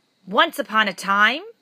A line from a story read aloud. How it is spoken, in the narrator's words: boomed a voice from the darkness